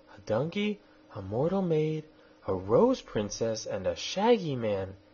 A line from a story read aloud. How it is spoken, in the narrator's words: exclaimed